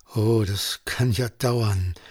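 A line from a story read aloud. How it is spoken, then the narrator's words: Groaning. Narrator (German): stöhnte Johannes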